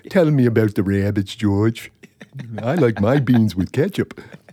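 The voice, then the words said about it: Imitates Lenny from Of Mice and Men. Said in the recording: “He sounds like Lenny from Of Mice and Men”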